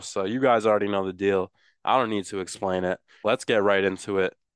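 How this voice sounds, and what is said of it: Congested, stuffy voice. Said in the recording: “I sound awful ... how horrible I sound because I have been fighting a little bit of a sinus infection this week ... without hacking up a lung”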